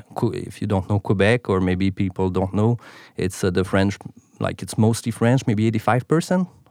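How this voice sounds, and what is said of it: Quebec French-accented English. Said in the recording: “I'm from Montreal. So that's why the accent, my main language is French.”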